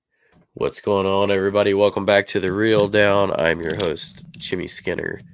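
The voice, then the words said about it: Sick, hoarse-sounding voice. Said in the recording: “I know I sound different because I'm sick as hell”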